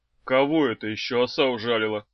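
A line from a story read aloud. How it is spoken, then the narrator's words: Anxious grumbling. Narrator (Russian): пробурчал Хаврон, с тревогой думая о Феликсе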